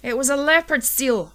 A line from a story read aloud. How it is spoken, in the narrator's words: I yelled at Ellen